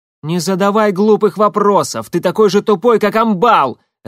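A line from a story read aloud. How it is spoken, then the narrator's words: Barking. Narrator (Russian): рявкнула Алекса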